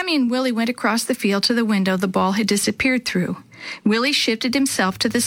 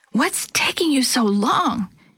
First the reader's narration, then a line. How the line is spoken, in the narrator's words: Chris hissed